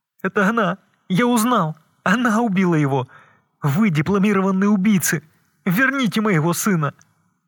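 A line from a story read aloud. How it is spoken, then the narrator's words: Sobbing. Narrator (Russian): Он зарыдал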